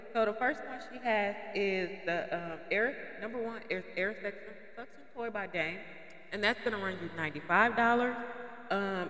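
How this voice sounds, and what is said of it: Sick, under-the-weather voice. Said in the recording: “I'm a little bit under the weather. ... excuse my voice.”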